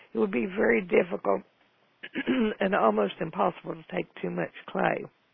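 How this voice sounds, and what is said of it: Gravelly, froggy voice. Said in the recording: “I'm going to try to get rid of this frog because I know my voice is gravelly.”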